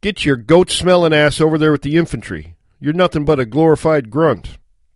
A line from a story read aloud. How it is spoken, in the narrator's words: scoffed, and then he yelled